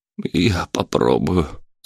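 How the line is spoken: Heavy sigh. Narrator (Russian): тяжело вздохнул мэр

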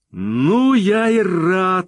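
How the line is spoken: Exclaimed. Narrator (Russian): воскликнул он, увидев Мону

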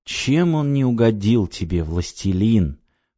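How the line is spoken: Whisper. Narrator (Russian): прошептал я

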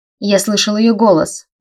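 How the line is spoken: Barked. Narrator (Russian): рявкнул Райнер

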